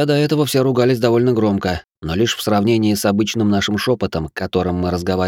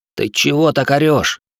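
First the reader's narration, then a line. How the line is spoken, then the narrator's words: Hissing. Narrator (Russian): Он зашипел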